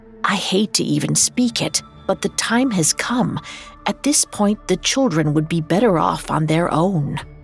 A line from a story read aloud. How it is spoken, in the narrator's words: Karina whispered